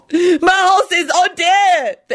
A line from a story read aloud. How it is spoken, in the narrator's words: the Asian man sobbed